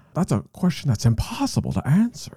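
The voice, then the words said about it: Imitates another person's voice. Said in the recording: “Great impression.”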